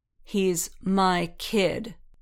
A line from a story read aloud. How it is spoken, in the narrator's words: Din repeated coldly